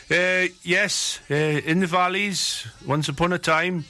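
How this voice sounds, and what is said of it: Put-on Welsh accent. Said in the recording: “I've slipped into a Welsh accent here, boy.”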